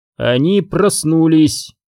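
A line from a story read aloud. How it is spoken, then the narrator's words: Eerily clear voice. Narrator (Russian): до ужаса ясным голосом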